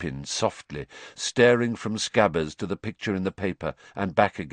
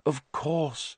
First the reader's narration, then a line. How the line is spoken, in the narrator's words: Lupin breathed